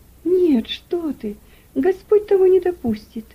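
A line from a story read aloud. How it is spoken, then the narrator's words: Frightened exclamation. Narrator (Russian): воскликнула мать, побледнев еще больше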